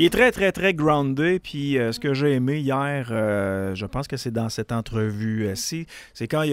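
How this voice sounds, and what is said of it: Usual voice. Nothing is said of it.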